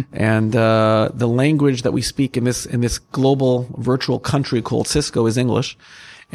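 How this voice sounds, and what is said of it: American accent. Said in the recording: “as you can hear from my accent, I'm American myself”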